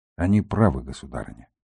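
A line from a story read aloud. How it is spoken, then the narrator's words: Quiet. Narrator (Russian): проговорил он тихо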